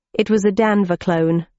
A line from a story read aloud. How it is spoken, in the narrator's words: I said